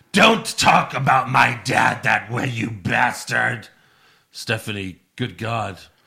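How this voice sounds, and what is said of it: Triple H impression. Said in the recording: “do an impression of Triple H complaining to Stephanie about Vince burying all of his talents”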